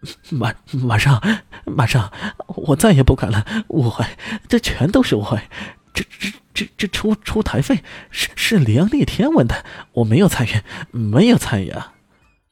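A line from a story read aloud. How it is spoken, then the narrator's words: Terrified, whimpering. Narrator (Chinese): 柯建轩吓得浑身哆嗦 哭丧着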